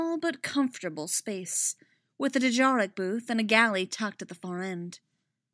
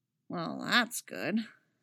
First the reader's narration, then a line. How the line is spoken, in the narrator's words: Kanan mutters